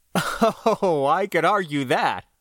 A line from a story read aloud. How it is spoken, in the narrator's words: I laughed